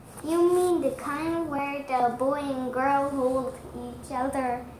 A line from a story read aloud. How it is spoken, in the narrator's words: said Posy